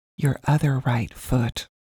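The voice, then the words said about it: Polite whisper. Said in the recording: “whisper politely”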